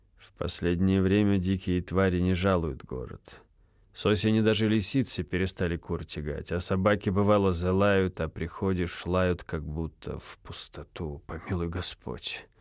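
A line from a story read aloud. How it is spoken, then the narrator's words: Very mournful voice. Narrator (Russian): добавил он самым скорбным голосом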